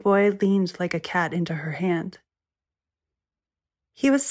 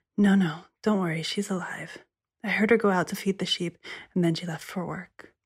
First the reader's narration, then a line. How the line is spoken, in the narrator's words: said, whispering